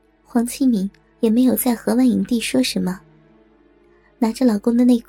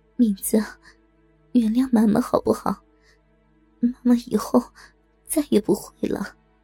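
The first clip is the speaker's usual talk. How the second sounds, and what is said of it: Soft, quiet spoken line. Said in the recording (Chinese): “小声的说着”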